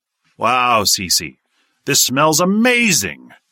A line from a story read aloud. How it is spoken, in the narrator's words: Sidney exclaimed in wonderment